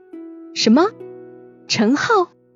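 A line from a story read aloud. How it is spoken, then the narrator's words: Loud cry. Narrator (Chinese): 我叫得很大声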